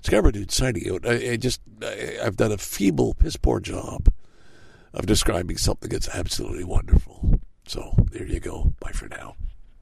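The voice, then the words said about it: Hoarse, strained worn-out voice. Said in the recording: “my voice is shot. I got to stop talking. I got to save some. I've been shouting, cheering on the bands. Yeah, my voice is gone.”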